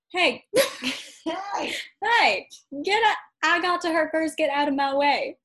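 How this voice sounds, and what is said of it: Screechy Southern-accented character voice. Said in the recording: “Is that how Britney sounds? ... She sounds Southern. ... screeched”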